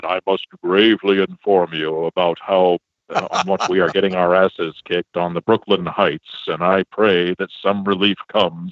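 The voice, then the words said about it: Deep, grave George Washington voice. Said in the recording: “when it came time to read a letter from George Washington ... I have such a deep voice because I was able to use it to maximum comedic effect”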